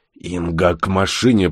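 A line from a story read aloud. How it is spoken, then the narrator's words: Hoarse rasp. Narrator (Russian): прохрипел Бур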